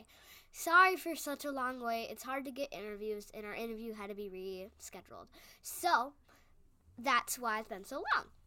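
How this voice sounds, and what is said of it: Congested, stuffy-nosed voice. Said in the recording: “I've had a little bit of a cold and a stuffy nose, so if my voice sounds a little bit different”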